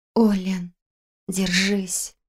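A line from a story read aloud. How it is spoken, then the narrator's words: Whispered. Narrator (Russian): прошептала я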